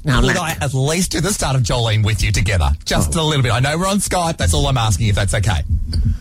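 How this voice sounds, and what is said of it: Strong Australian accent. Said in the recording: “You have such an accent, you know. ... You're very down under.”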